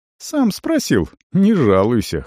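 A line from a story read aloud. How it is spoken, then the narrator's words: Wry snort. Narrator (Russian): хмыкнул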